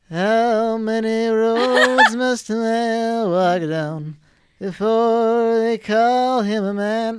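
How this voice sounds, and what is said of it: Singing imitating the original singer. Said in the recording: “I'm gonna try to do this in the voice of the original singer”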